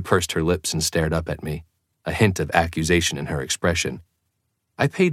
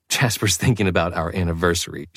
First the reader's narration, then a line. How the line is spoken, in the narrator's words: she laughed